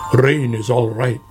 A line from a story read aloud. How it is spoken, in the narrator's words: grumbled Badger